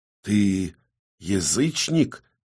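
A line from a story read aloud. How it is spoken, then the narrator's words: Near-whisper after long pause. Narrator (Russian): чуть ли не шепотом поинтересовался Оксеншерна после довольно долгой паузы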